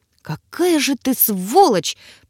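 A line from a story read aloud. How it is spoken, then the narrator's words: Through clenched teeth. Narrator (Russian): процедила я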